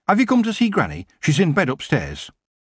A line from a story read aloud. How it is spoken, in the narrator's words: Sid said urgently